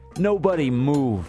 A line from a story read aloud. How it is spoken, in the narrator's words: I shout as loud as I can